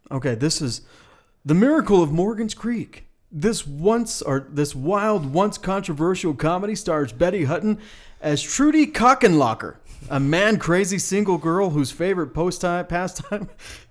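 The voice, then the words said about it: Serious movie trailer announcer voice. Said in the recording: “in a serious voice ... As the movie guy.”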